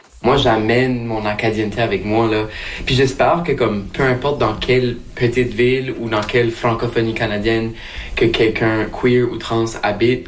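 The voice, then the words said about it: Acadian French accent. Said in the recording (French): “vous avez peut-être entendu son accent qui reste au centre de sa pratique artistique ... ses racines acadiennes”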